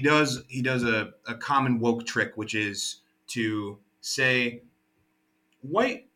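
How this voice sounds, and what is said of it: Usual voice. Nothing is said of it.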